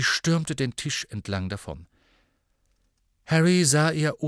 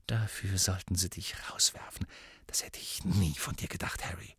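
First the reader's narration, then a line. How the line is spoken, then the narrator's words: Quiet hiss. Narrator (German): Sie beugte sich tief hinunter, so dass nur Harry sie hören konnte, und zischte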